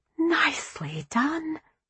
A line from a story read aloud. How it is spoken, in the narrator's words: Glory whispered